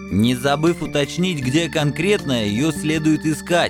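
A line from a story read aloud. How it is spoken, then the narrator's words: Snide. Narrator (Russian): ехидно вставил Формазон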